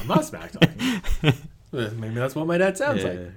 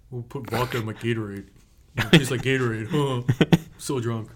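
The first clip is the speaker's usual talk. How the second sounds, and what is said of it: Imitates another person's voice. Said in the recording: “do I sound like my dad right now? ... A little bit.”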